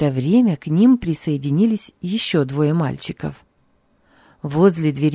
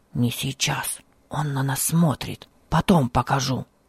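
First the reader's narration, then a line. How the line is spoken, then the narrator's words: Whispering. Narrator (Russian): прошептал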